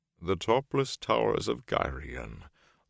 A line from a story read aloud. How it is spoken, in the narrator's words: Loyal murmured sadly